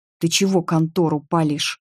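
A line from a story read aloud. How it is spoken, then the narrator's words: Hissed. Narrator (Russian): прошипел Паша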